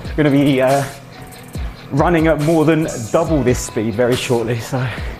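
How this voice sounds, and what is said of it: Out of breath while talking. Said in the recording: “I'm already getting a bit out of breath”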